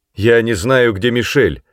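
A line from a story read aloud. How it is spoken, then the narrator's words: Shout from doorway. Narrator (Russian): с порога крикнул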